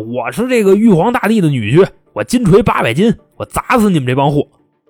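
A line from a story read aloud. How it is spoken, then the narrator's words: Theatrical shouting. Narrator (Chinese): 林过云 开始演啊，在法庭上喊啊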